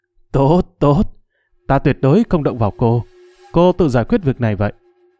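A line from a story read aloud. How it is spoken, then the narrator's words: Loud laughing, wounded. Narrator (Vietnamese): Cốc Trần để mặc cho máu chảy, cười lớn nói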